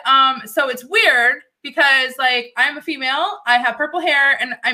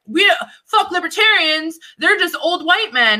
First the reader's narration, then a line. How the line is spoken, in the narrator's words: They yelled, they said